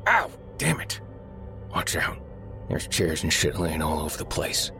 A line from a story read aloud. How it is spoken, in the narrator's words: Derek bang hard against some unyielding object and hiss